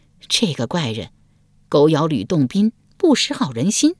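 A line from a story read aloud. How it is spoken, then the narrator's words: Long sigh. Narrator (Chinese): 张格长叹一声道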